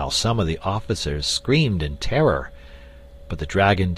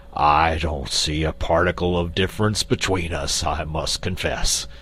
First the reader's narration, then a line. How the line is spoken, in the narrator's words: retorted Quox gruffly